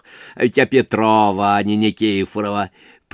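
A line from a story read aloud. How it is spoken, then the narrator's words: Sudden, after laughing. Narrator (Russian): прибавила вдруг, когда перестала смеяться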